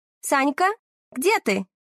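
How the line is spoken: Commanding shout. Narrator (Russian): Командным голосом кричит Варя

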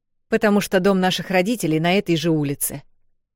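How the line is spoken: Rude reply. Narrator (Russian): грубо ответила Эл

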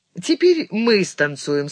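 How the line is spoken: Calm announcement. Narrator (Russian): спокойно объявила она

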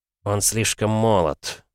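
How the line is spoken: Sigh. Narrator (Russian): вздохнул Альбертсон

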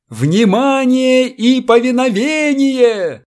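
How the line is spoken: Shouting in own language. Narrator (Russian): закричал по-своему Намазов

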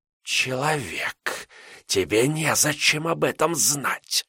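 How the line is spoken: Hissing again. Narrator (Russian): вновь прошипела она

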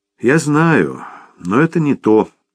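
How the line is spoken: Sad reply. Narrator (Russian): печально откликнулся Томми

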